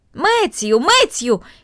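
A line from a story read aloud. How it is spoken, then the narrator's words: Shouting into the distance. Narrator (Russian): крикнула она в направлении большой конюшни и амбара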